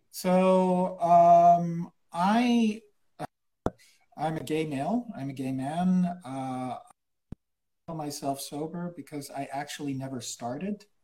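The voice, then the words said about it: Acquired American-school accent. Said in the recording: “This accent is completely fake. It was given to me when I went to American school as a child in South America. I'm actually Dutch”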